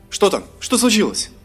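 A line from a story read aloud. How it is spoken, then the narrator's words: Rapid chatter. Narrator (Russian): затараторил эльф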